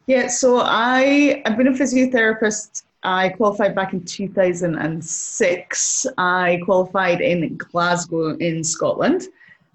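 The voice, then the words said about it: Noticeable accent. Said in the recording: “people are going to start picking up your accent”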